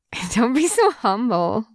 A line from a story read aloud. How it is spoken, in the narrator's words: Weiwuxian chuckles